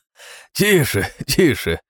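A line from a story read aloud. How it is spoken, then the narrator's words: Laughing. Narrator (Russian): рассмеялся дядюшка Рибл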